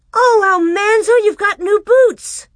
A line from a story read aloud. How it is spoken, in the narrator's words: she cried